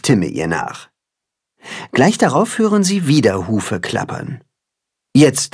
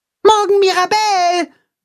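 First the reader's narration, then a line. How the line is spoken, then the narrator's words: Calling after someone. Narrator (German): ruft Max ihr nach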